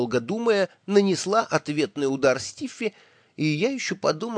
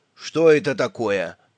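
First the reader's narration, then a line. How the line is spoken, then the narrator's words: Stern displeased question. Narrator (Russian): Присутствие Стиффи явно ему не понравилось, и он строго спросил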